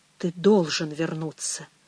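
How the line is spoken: Barely audible. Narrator (Russian): еле слышно выговорил Пэдди

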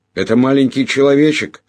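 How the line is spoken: Joyful yelling. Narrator (Russian): радостно заорал я

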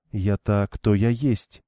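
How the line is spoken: Calm reply. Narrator (Russian): спокойно ответила Игвейн

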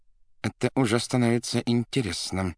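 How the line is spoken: Through clenched teeth. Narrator (Russian): процедил сквозь зубы Варенуха

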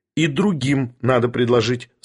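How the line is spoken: Plain. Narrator (Russian): сказал Барменталь

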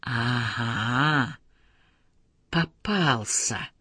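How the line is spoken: Quiet. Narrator (Russian): тихо сказала Лизбет Саландер

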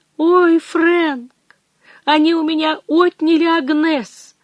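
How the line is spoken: Sobbing. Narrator (Russian): Она всхлипнула

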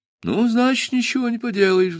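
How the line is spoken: Sighed. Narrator (Russian): вздохнул

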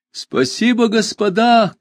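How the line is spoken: Shouting young man. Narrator (Russian): крикнул нам парень в бело-голубом лохе

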